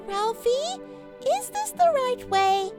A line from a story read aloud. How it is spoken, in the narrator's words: whimpered his sister Ruby